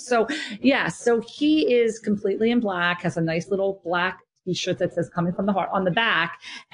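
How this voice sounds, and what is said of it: New Jersey accent. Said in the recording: “everybody can hear my New Jersey accent”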